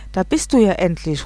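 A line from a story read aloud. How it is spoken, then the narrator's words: Calling out. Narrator (German): ruft die Mutter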